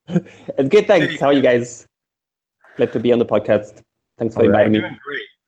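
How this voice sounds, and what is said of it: Italian accent. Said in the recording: “he has a great Italian accent”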